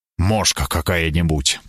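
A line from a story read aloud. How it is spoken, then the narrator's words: Grumbling. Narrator (Russian): пробурчал я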